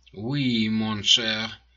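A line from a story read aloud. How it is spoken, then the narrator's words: Purring. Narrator (Russian): промурлыкал Калиостро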